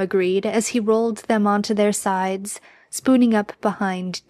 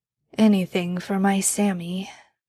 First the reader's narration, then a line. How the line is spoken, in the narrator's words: Dean mumbled as he started to drift off to sleep